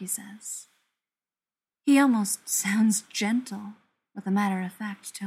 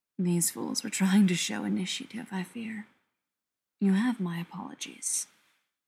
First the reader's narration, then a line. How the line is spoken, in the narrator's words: murmurs